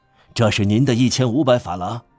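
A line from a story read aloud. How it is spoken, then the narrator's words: Breathless, panting. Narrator (Chinese): 他气喘吁吁地说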